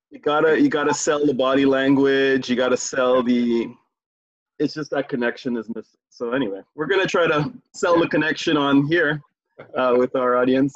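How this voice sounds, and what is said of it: Trinidadian accent. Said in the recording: “You can tell by my accent, I am 50% of the show multicultural part... I'm from Trinidad.”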